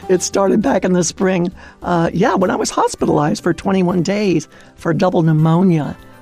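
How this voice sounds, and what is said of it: Audibly impaired, affected voice. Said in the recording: “I could complain about the way my voice sounds right now ... I'm sure our listeners can hear the residual effect from my lung infection”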